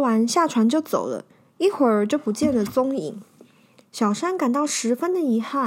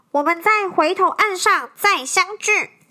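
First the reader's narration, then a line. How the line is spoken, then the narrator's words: Shouting back. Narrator (Chinese): 道姑掉头朝着小山喊道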